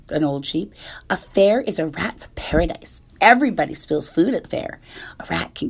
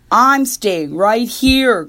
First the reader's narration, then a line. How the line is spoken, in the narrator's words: grumbled the rat